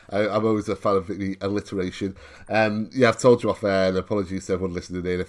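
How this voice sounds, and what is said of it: Hoarse, sore-throated voice. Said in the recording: “I am ropey as fuck today ... it's hit my throat today ... apologies if I sound a bit hoarse”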